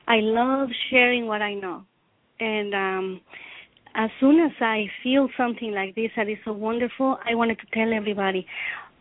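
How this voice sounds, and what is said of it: Non-native accented English. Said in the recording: “I feel self-conscious about my accent or the way I speak”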